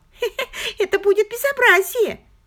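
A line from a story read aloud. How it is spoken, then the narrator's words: Giggling. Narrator (Russian): Она опять хихикнула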